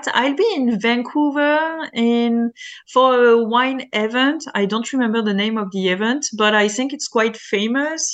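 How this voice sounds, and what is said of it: French-accented English. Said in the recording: “my French accent”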